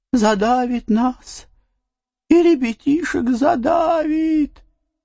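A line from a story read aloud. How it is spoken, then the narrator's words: Tearful woman's lament. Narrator (Russian): начала слезливым голосом приговаривать баба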